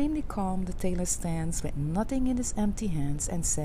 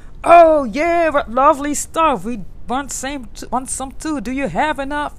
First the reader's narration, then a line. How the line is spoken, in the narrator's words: They shouted